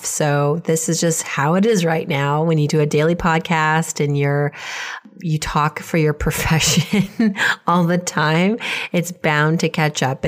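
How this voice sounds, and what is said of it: Hoarse, coughy voice. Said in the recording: “As you can tell from my voice, I'm still getting over a bit of a cough.”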